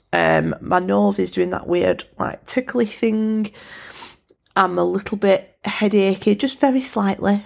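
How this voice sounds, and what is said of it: Congested, snotty voice with sore throat. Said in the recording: “I've realised what an actual snot rag I sound like ... I've got a little bit of a sore throat”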